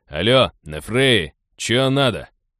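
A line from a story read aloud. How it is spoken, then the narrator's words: Displeased, wary, mildly irritated question. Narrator (Russian): Недовольно и настороженно, но не сказать, чтобы шибко злобно, поинтересовался он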